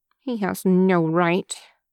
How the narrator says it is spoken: she grumbles

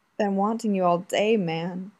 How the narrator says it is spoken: Junpei moaned

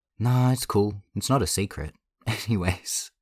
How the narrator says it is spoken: Changbin said with a forced laugh

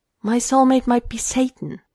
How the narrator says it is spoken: he blurts out

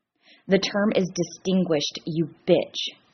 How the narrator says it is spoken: Dean hisses

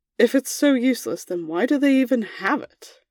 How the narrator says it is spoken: groaned

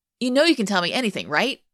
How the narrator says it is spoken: Hayden blurts out

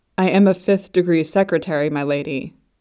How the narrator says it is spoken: he replied, as calmly as he felt able

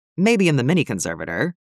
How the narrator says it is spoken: Delia says

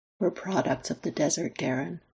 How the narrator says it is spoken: Lex tells him gently

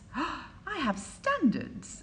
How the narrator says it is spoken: Aziraphale said, but he was laughing too

